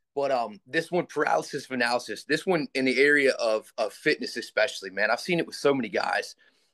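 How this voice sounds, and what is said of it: Hoarse, raspy voice. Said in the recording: “I lost my voice at a baseball game this week, so I'm a little bit hoarse. ... I'll try to rasp it out.”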